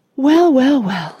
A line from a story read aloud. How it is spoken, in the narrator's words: sighed Mr